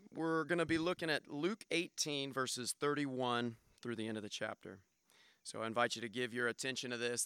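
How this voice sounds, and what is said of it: Hoarse, raspy voice. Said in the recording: “my voice was sort of hoarse? ... I sound like I have this cold ... raspy-voiced”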